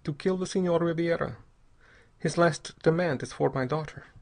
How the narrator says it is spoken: he said very calmly

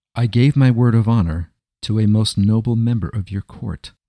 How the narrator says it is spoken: replied Enoch Altschul in a clear voice

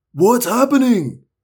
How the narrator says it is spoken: cried

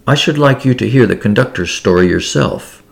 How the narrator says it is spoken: he murmured confidentially

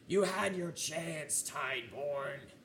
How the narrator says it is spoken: Sloane looks, glares at you, and yells

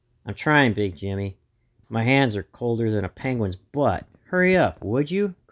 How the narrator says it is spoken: groaned Buttons

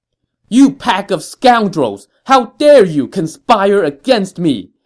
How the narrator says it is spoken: An incensed Ma Chao shouted

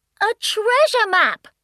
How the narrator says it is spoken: shouted Bath Bunny

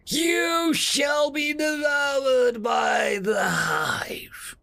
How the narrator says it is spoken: roared out

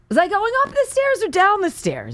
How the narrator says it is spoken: she yells

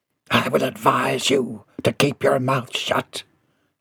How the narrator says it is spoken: he hissed

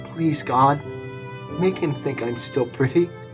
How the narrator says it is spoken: quietly said

